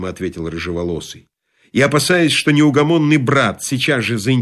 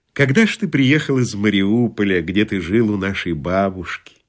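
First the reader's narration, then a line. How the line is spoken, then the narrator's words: Gentle question. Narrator (Russian): первый сын ласково спросил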